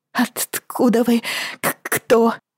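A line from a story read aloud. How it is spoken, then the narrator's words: Stammering, sobbing. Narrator (Russian): заикалась и всхлипывала она, тщетно пытаясь успокоиться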